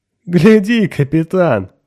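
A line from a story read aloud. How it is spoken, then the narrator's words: Laughing. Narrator (Russian): смеялся Микол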